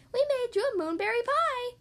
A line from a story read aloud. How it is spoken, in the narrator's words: the rabbits playfully said